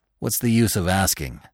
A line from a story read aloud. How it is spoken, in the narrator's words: said Rono gloomily